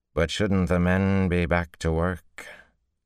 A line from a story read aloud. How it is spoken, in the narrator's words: He slurred his words worse than Seleucia, almost to unintelligibility